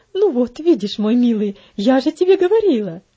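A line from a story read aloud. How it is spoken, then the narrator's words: Triumphant exclamation, mother. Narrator (Russian): победоносно воскликнула его мать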